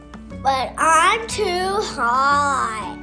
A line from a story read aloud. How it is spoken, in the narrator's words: Jackson whined back